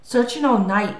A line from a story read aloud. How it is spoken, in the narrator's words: he gasped